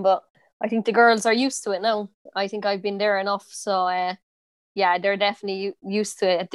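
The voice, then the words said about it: Strong Irish Cork accent. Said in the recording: “I have a pretty strong accent, like, I think Cork accent”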